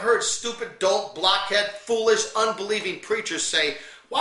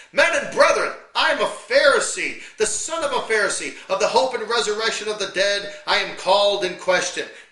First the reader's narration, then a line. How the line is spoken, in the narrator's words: he cried out in the council